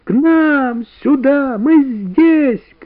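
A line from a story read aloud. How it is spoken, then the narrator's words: Children shouting. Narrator (Russian): кричали ребята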